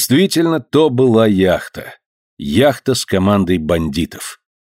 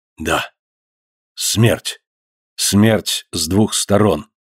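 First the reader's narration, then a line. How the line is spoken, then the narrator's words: Despairing whisper. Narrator (Russian): прошептал Гленарван, сломленный отчаянием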